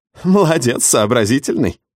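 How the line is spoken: Chuckling. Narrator (Russian): хохотнула Даша Воронина

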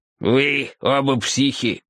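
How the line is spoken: Grumbling. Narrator (Russian): проворчал Джошуа

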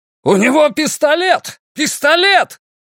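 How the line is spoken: Crowd yelling. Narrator (Russian): Люди, стоявшие рядом с Олли, заорали

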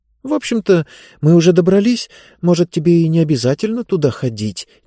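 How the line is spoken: Uncertain. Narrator (Russian): неуверенно сказала Диба

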